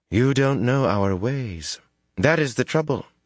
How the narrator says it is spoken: she said

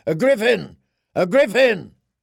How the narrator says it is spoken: The men of the Golden Company clambered through the merlins and raced along the wall walks, shouting

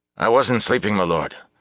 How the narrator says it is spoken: the fellow said quickly

